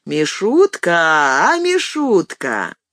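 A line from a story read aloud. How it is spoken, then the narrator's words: Deep drawling singsong. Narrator (Russian): кто-то на последней парте проговорил нараспев таким же густым голосом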